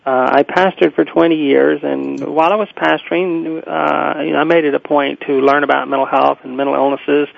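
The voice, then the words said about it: Southern US Alabama accent. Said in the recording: “prior to that, lived in Birmingham, Alabama, hence the accent.”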